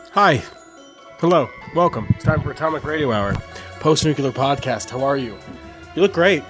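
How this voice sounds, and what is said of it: Strained, slightly labored breathing voice. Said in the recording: “hear it in my voice. I'm still kind of getting over COVID ... I feel like I'm still having some trouble breathing. I feel like you can hear it in my voice.”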